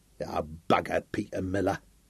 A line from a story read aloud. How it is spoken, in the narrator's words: snarled Sam